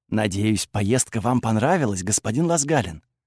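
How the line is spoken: Quiet. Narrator (Russian): тихо сказал мне

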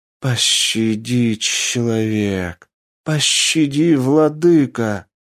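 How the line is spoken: Moaning snakes. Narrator (Russian): стонали змеи

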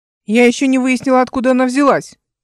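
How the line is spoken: Shouted. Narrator (Russian): крикнула им Эл

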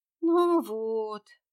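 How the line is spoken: Moaned. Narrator (Russian): простонала

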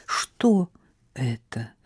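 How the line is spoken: Uncertain question. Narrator (Russian): спросила она неуверенно

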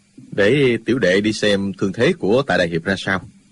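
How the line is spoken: Low quiet voice. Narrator (Vietnamese): Dư Thanh Tuyền vẫn hạ giọng nói nhỏ

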